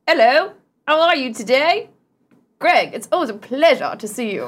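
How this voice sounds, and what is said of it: Uppity, educated-sounding puppet voice. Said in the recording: “I like your accent ... It's kind of uppity ... the first time Chad's ever sounded educated”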